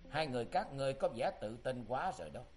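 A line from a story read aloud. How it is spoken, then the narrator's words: Smiling. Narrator (Vietnamese): Tư Đồ Văn mỉm cười nói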